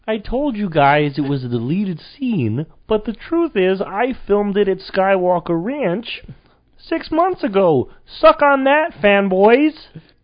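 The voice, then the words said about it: George Lucas impression. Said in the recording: “Can you please do his impression? ... This is George Lucas talking”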